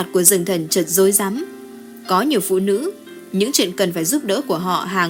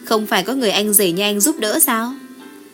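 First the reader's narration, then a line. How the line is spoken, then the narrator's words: Smiling. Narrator (Vietnamese): Lưu Minh Ngọc mỉm cười nói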